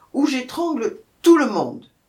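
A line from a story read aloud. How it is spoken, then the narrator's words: Growling lioness. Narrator (French): gronda la lionne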